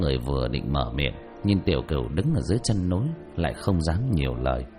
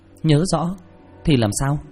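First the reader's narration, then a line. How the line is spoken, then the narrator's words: Cold. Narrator (Vietnamese): Một mũi tử lạnh lùng nói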